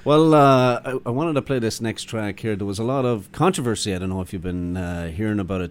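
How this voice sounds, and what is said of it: Irish accent. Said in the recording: “as Irish people ... the minute they hear the accent”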